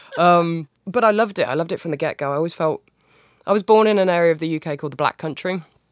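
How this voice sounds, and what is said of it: British regional accent. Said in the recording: “I'm not going to make it with this accent.”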